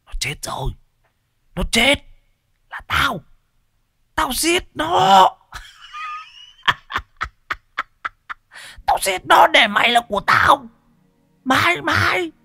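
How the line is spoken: Hissing shriek. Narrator (Vietnamese): Nó rít lên

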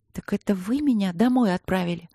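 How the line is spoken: Quiet question. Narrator (Russian): тихо спросила Катерина

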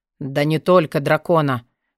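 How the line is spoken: Goblin's gruff grumble. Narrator (Russian): буркнул гоблин

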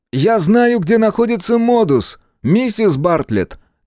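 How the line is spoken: Shout. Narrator (Russian): крикнул Мэлори

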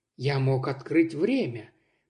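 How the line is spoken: Sick person's mumbling. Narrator (Russian): продолжал бормотать больной

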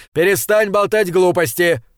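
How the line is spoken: Impatient yell. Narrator (Russian): заорал Макнаут, теряя всяческое терпение

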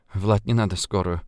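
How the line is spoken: Mumbling. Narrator (Russian): пробормотала Ульяна

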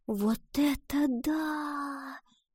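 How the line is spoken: Whisper. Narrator (Russian): прошептала Гретхен

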